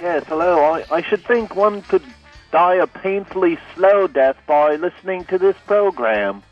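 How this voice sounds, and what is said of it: Unconvincing fake put-on accent. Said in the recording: “your fake accent ... such a lame attempt at a fake accent”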